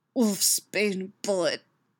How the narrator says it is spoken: she tells him through gritted teeth

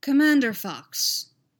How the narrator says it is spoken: Palpatine said calmly into his comlink

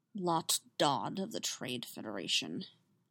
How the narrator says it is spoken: Obi-Wan murmured

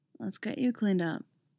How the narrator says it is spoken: tells her, in that soft voice

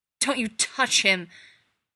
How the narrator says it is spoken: Sam snarled, terror a black, clawing thing within him

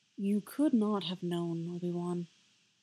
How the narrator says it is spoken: Plo said gently

